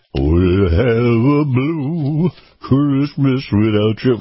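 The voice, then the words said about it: Sung imitation of another singer's voice. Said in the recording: “my Elvis impression ... pardon my singing”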